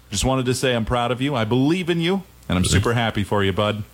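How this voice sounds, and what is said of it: Deep polished radio voice. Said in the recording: “you talk about a guy with a radio voice. Yeah. Holy cow.”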